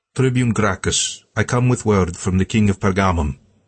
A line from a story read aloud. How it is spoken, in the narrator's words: the emissary said in a noticeable eastern accent